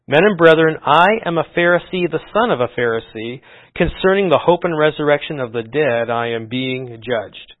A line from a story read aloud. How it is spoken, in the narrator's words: Paul he cried out in the council